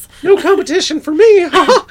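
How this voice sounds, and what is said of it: Mickey Mouse voice impression. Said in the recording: “Gosh, Mickey. That was a good impression.”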